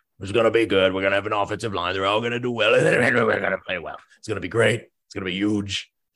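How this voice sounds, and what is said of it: Imitates another person's voice. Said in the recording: “terrible Trump impression.”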